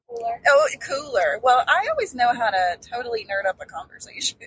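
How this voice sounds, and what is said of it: Southern American accent. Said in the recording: “Maybe that's my Southern accent coming through”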